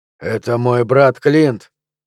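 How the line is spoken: Flat colorless voice. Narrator (Russian): бесцветным голосом сказал Флинт

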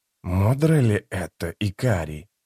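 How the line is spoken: Soft question. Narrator (Russian): мягко спросил Трель

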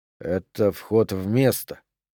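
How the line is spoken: Muttered. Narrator (Russian): пробормотал Дюпре

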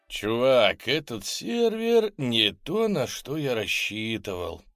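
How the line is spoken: Grumbling. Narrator (Russian): проворчал

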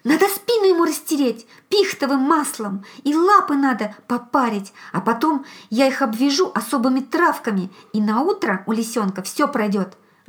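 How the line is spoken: Loud whisper. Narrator (Russian): громко зашептал

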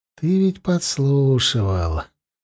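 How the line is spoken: Gentle, affectionate. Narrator (Russian): ласково сказал Зарни

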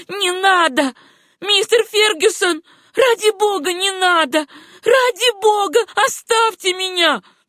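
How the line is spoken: Terrified scream. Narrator (Russian): она в ужасе закричала

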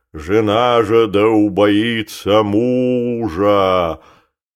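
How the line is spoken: Booming deep terrifying voice. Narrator (Russian): Громадный протодиакон трубил нечеловечески густым, могучим и страшным голосом

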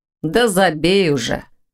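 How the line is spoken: Gloomy reply. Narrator (Russian): мрачно отозвался Ваня

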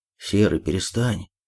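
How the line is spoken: Unsure yelp. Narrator (Russian): вякнул кто-то неуверенно

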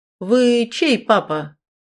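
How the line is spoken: Elderly woman, loud question. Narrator (Russian): Пожилая женщина громко спросила

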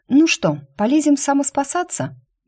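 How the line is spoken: Cheerful question. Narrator (Russian): бодро спросила я

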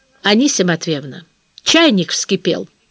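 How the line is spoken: Stern, warning. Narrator (Russian): строго и предостерегающе говорит Саша

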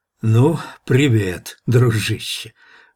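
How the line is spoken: Hoarse whisper in ear. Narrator (Russian): просипел Гук в ухо Ивану

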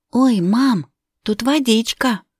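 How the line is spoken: Exclaiming. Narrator (Russian): воскликнула Вероника

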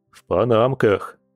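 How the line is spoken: Snort. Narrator (Russian): хмыкнул Борис

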